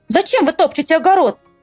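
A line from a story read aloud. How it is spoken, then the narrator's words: Shouting. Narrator (Russian): закричала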